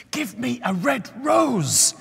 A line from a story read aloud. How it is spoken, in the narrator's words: she cried